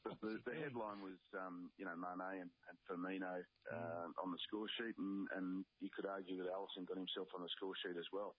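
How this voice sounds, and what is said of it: Croaky, strained voice. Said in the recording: “my voice is a bit croaky this morning, mate. I was screaming at a television set”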